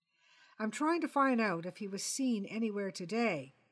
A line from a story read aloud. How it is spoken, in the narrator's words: said the sergeant